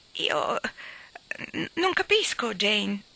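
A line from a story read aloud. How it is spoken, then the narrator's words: Stammered. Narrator (Italian): balbettò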